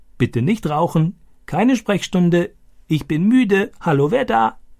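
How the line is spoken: Croaking imitation. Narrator (German): Stani krächzte diese Sätze wie Boga

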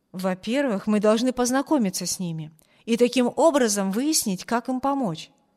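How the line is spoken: Plain. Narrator (Russian): сказал Брюс

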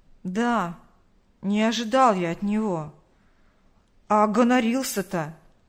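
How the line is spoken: Offended drawl. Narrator (Russian): Обиженно протянул Роман

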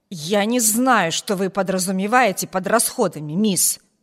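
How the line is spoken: Angry growl. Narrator (Russian): прорычала она, как сердитая собака, готовая наброситься

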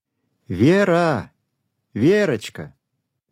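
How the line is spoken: Loud calling. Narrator (Russian): громко позвала мама

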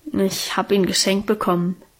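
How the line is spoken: Embarrassed murmur. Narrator (German): murmelte sie so verlegen

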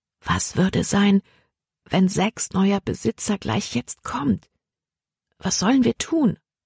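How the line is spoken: Quiet. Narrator (German): sagte sie leise

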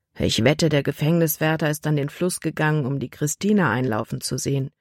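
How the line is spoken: Murmured. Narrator (German): murmelte Nate

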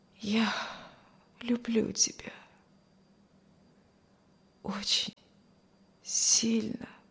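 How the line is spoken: Barely audible murmur. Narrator (Russian): еле слышно проговорил Стивен

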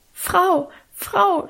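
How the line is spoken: Stammering. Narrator (German): stammelte sie

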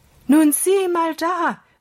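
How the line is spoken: Call. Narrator (German): rief er Holger zu

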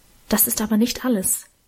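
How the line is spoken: Whispering. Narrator (German): flüsterte Emma

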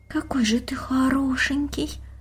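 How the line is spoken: Admiring girl's whisper. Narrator (Russian): прошептала девочка, любуясь им

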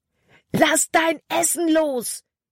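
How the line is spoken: Shouted. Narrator (German): schrie Caleb

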